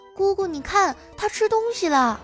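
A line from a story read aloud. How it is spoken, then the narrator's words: Excited shout. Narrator (Chinese): 可把妮妮开心坏了，大叫着说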